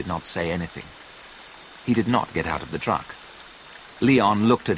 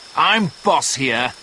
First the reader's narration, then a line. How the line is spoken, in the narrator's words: shouted Leon